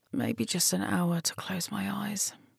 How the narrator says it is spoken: she muttered to herself

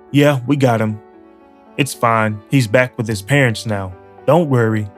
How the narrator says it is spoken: they said

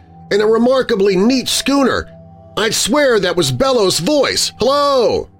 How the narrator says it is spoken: he shouted suddenly at the top of his voice

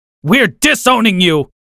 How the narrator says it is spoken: my dad screamed

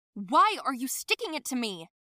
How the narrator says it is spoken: abruptly ... yelled

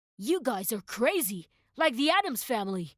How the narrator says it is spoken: the man exclaimed

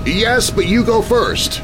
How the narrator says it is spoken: his dad shouted over the winds that had just kicked up

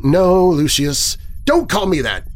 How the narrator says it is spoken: I shout

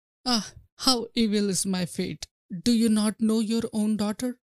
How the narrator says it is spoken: The queen cried

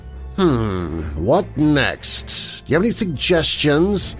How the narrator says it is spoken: he said mockingly

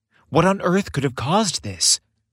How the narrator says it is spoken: Santa sighed heavily

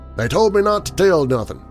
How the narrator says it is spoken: replied sharply

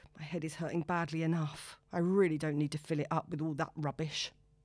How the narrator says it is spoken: in disgust and mumbles to herself

